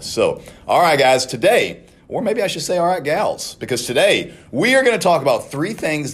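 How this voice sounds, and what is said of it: Slightly scratchy, strained voice. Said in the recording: “I've screamed extra this week, and my voice is not doing the greatest ... I just a little scratchy voice today”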